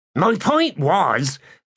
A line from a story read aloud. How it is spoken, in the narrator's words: Torvald hastily explained